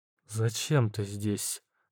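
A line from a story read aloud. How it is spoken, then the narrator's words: Forced, strained words. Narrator (Russian): Наконец выдавила из себя женщина, которой поклонялись словно богине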